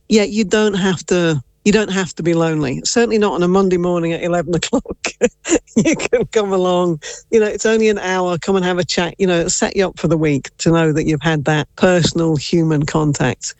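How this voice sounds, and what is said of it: English accent. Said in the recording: “Based off your accent, I wonder where you may be born in England.”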